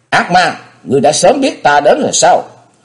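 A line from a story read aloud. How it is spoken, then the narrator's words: Roaring like a beast. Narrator (Vietnamese): Thế Hùng gầm lên như hổ đói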